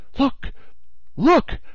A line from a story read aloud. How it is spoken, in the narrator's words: the Canadian exclaimed, his voice full of excitement